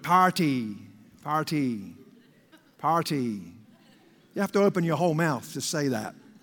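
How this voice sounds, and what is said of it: Accent, 'party' sounds like 'potty'. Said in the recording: “this accent or speech impediment, however you describe it, I have a bit of a problem with the party word ... When I say it, it sounds like potty.”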